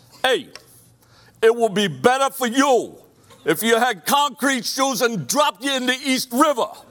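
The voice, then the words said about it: Put-on Brooklyn accent. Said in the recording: “That's my Brooklyn accent”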